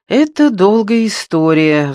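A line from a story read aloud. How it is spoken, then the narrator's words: Sighing. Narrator (Russian): вздохнула Андреа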